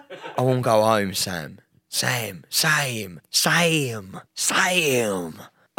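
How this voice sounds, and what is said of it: Old man's voice. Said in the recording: “I sound like a ninety-year-old fucking bloke that was left in the in the Blitz in London during the war”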